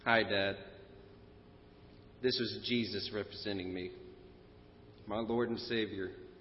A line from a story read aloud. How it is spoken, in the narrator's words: softly said to the judge